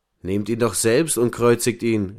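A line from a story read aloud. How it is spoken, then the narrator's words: Calling out. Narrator (German): rief Pilatus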